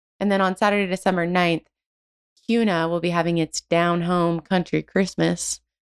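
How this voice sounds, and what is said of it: Country twang accent. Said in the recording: “I just can't say down home without doing a twang”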